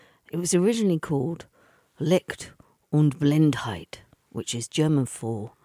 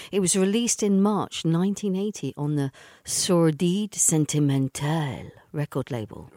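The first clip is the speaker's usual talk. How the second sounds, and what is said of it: Put-on French accent. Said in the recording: “I'm practicing my French accent, can you tell?”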